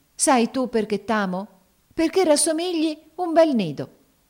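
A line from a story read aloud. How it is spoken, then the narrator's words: Sudden ecstatic exclamation. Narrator (Italian): esclamò a un tratto con estasi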